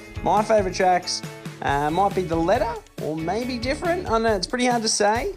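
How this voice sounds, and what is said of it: Twangy Australian accent. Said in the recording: “Australian accent ... extra Aussie ochre ... Nice and twangy and slangy”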